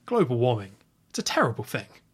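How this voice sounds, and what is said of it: Good impression of villain Graves. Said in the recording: “That's a very good impression... That was actually legit a good impression.”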